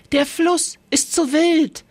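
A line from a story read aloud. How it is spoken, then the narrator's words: Called out. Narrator (German): rief Iri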